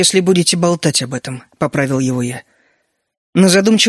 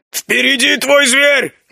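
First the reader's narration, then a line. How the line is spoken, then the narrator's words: Shout. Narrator (Russian): крикнул мне Огр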